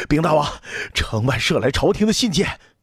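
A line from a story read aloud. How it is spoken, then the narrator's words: Breathless garrison officer. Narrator (Chinese): 守城的军侯 气喘吁吁地说道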